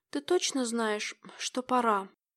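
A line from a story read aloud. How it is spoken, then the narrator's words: Muttered. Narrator (Russian): пробормотала я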